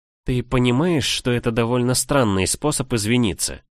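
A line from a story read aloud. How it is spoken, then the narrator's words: Weary. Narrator (Russian): устало произнесла я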